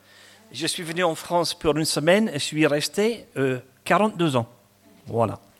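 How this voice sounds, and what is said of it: Slight Scottish accent in French. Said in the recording (French): “j'ai un petit accent, j'ai gardé mon accent. Hein. Ce n'est pas un accent du midi, mais je suis écossais.”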